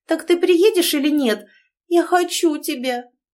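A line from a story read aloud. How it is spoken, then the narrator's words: Moaning into phone. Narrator (Russian): простонала в трубку Аня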